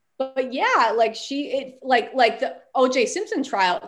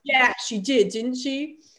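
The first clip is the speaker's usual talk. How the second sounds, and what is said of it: Poor attempt at Australian accent. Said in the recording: “the Lyft driver is Australian... My accent is so bad... that's my terrible attempt. I am not Meryl Streep.”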